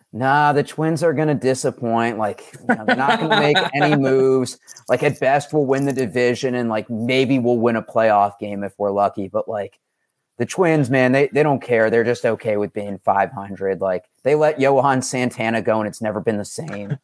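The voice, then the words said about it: Imitates another person's voice. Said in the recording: “I'll put on my best David impression.”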